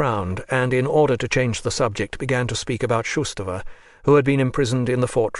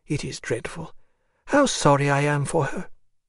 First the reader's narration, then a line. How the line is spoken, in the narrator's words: she added with a sigh